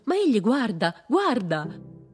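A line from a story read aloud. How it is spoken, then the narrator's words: Woman exclaiming, backing away. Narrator (Italian): Una donna esclamò arretrando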